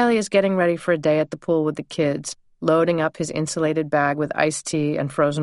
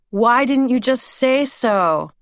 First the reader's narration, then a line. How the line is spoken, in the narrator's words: In English he yells